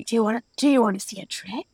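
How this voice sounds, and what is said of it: Creepy clown character voice. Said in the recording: “good Pennywise impersonation ... very creepy”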